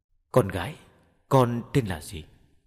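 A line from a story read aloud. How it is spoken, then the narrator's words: Gentle. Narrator (Vietnamese): Mẫu đệ nhị cất tiếng dịu dàng nói với Thu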